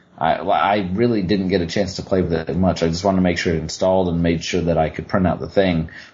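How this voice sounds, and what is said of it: Hoarse, partially lost voice. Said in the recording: “oh god, are you okay? ... I'm just getting over a cold. ... Partially lost my voice”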